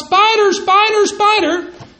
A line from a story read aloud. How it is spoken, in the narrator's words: she really yells out